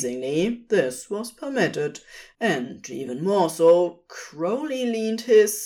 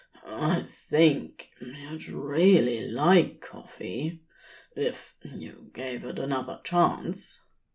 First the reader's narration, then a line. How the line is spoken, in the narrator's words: Crowley rasped in his sleep-rough voice